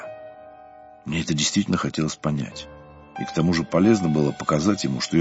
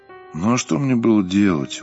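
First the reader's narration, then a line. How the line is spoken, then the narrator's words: Dejected. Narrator (Russian): уныло проговорил Сергей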